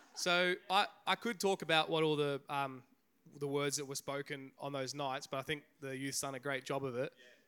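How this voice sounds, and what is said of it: Hoarse, nearly lost voice. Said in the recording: “I'll try to talk. My voice is, I don't have a voice”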